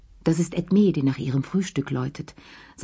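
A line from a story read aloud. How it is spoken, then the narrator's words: Plain. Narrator (German): sagte Madame Pelou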